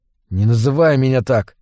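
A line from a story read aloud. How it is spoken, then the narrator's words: Forced out. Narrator (Russian): выдавил я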